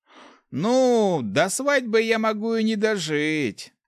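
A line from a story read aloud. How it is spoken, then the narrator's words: Disappointed drawl. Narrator (Russian): разочарованно протянул Руди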